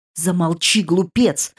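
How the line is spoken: Irritated. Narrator (Russian): раздраженно сказал

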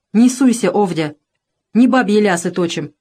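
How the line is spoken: Stern interruption. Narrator (Russian): строго оборвал жену Еремей

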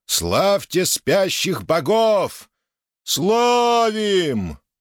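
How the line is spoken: Discordant crowd roar. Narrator (Russian): несогласно взревела толпа

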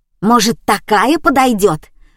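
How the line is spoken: Boy shouting. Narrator (Russian): выкрикнул мальчишка

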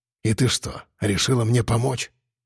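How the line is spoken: Displeased grumble. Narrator (Russian): Недовольно пробурчал я

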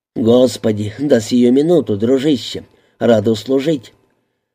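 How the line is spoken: Short laugh. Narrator (Russian): Сенс коротко хохотнул

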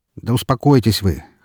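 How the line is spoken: Dismissive snort. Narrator (Russian): хмыкнул я

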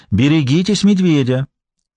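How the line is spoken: Cheerful singsong. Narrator (Russian): весело пропела она

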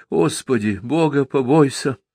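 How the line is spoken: Frightened, sleepy pleading. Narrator (Russian): испуганно упрашивала Павла, сонно покоряясь этой силе

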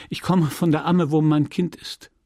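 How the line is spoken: Stammering. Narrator (German): stotterte sie

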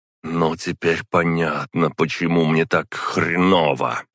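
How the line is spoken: Growl. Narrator (Russian): прорычала Зара

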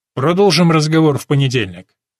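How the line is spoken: Abrupt. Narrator (Russian): Резко прерывая занятие, он говорит

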